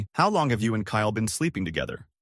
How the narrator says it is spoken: asked, flatly

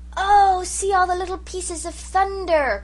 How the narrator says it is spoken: cried Jims in delight

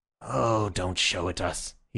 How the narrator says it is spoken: he said wearily

